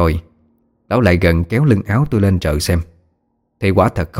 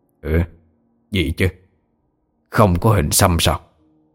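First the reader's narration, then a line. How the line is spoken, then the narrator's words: Old man muttering. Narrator (Vietnamese): Lão Chẩn Mù nhíu mày lẩm bẩm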